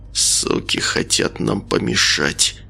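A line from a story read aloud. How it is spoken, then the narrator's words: Through gritted teeth. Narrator (Russian): процедил Николай сквозь зубы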